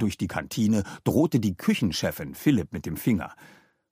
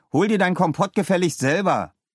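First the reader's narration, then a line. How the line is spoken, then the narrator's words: Called out. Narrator (German): rief Leo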